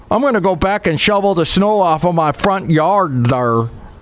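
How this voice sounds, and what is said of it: Put-on wandering regional accent. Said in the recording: “Don't know where that accent was going”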